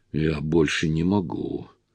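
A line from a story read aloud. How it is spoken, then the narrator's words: Whisper. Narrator (Russian): та прошептала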